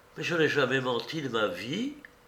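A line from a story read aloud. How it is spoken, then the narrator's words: Cold interruption. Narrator (French): interrompit froidement la marquise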